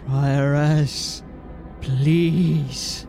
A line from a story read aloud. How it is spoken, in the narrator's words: he said, trying to keep his voice even